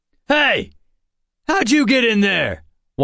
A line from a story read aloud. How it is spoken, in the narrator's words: one shouted